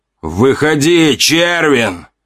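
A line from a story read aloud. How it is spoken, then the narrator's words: Yell. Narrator (Russian): заорал он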